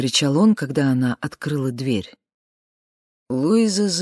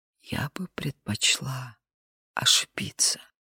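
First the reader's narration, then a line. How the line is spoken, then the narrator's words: Whisper. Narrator (Russian): Луиза прошептала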